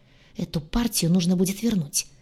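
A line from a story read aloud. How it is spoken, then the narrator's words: Annoyed hiss. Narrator (Russian): Досадливо прошипел он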